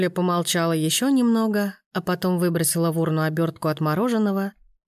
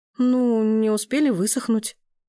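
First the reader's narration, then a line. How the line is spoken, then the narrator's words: Uncertain young woman. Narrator (Russian): неуверенно ответила девушка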